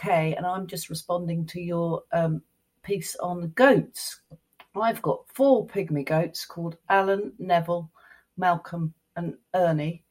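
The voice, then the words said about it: British accent. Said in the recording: “hop across the pond ... You try to guess based on the accent”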